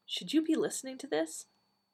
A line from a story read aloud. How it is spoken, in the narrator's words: Nyssa said softly to the doctor